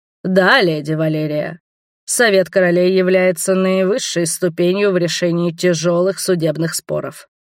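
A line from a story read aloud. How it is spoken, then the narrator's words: Booming bass voice. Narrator (Russian): прогремел басом Леангард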